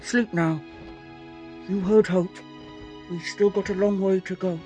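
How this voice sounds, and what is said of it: Muffled character voice. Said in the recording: “in a strangely muffled voice”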